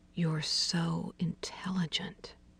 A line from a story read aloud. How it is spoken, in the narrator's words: murmured